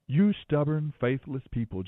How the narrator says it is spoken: Jesus said

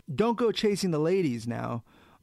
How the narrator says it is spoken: Bovard shouted down the stairwell

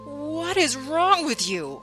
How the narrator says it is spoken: I shrieked at him

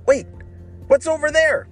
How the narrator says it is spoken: shouted Ryan

